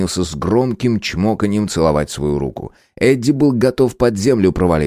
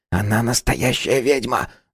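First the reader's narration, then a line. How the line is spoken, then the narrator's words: Whispering. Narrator (Russian): зашептал Харрис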